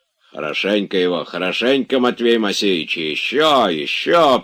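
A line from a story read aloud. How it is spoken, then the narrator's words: Spiteful gloating. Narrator (Russian): приговаривал он, злобно радуясь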